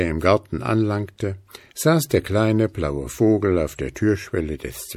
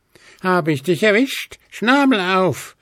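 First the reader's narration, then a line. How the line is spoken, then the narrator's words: Shouted. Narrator (German): rief Willi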